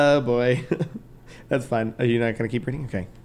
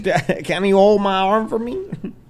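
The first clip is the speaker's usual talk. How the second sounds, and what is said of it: Bad put-on Canadian accent. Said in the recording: “That's my Canadian accent. ... That was very bad.”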